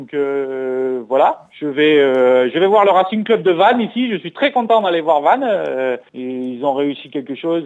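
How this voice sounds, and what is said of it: Singsong southwestern French accent. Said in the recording (French): “à l'accent chantant, normal, il est de Mont-de-Marsan”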